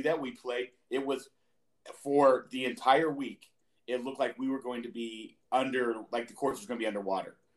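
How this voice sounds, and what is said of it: Hoarse, worn-out voice. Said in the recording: “That's part of also why my voice is gone.”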